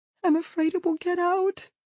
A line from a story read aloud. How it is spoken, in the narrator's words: she says, her voice trembling